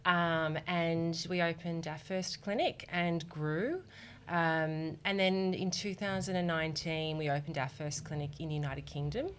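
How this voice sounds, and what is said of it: Australian accent. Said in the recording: “you can tell from my accent, I'm from Australia”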